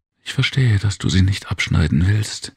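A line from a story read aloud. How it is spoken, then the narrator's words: Whisper in ear. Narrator (German): flüsterte sie der Tengiji ins Ohr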